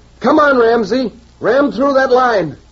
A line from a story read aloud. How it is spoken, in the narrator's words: you'd wave and yell